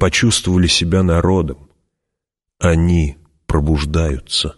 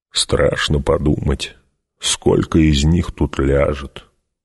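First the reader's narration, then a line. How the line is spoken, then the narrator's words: Muttered. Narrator (Russian): пробормотал Гурни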